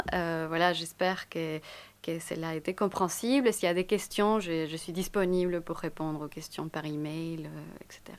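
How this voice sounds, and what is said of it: French with a Spanish accent. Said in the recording (French): “c'est ma langue maternelle ... votre patience aussi avec mon accent”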